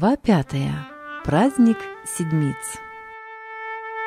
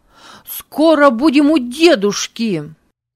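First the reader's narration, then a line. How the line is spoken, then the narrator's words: Joyful shout. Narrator (Russian): Авий, чуть не подпрыгивая от радости закричал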